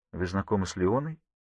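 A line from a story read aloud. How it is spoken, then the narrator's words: Quiet. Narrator (Russian): тихо говорит Арни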